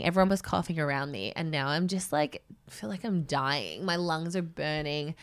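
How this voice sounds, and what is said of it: Congested voice with a cold. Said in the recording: “I don't know if you can hear in my voice, but I have come down with a serious cold”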